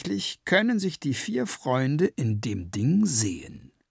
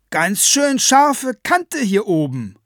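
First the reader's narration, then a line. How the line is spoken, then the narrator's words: Calling down. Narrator (German): ruft sie hinunter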